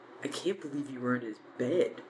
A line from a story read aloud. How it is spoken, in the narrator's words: Ron muttered